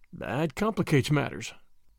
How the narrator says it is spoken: murmured thoughtfully

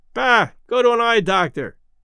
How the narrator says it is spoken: roared Red

